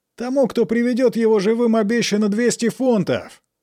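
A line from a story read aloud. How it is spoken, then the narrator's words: Frantic yell. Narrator (Russian): завопил истошным голосом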